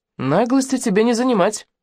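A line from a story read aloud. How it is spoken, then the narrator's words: Glum, to herself. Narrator (Russian): уныло сказала сама себе Алена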